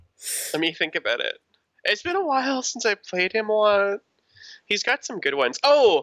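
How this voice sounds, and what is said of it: Usual voice. Nothing is said of it.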